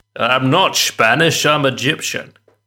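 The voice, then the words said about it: Scottish accent, Sean Connery. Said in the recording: “He played a Spanish-Egyptian with a Scottish accent. ... Sean Connery”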